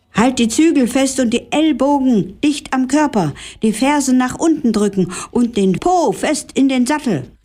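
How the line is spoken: Calling out instructions. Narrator (German): rief Herr Billerbeek Svea zu

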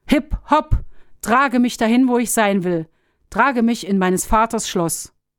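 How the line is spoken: Calling out. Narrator (German): rief

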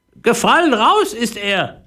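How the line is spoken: Parrot mother calling down. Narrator (German): rief die Papageimutter zu Philipp herunter

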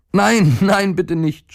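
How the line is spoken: Boy screaming. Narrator (German): schrie der Junge

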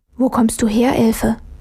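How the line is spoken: Puzzled whisper. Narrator (German): flüsterte verdutzt

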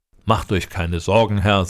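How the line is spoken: Plain. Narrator (German): sagte der Großäugige

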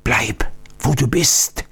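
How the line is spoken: Old man's warning whisper. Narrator (German): flüsterte der alte Oktiondo warnend zu

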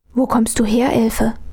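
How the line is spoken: Puzzled whisper. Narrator (German): flüsterte Armele verdutzt

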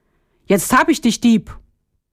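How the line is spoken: Called out. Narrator (German): rief

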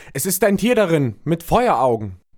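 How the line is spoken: Terrified repeated crying out. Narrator (German): der, der die Flasche geöffnet hatte, rief in einem fort

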